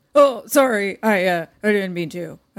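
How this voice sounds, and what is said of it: Imitated high school boy voice. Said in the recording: “Great high school boy impression”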